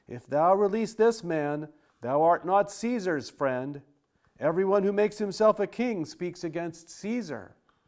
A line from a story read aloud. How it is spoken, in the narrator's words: the Jews cried out, saying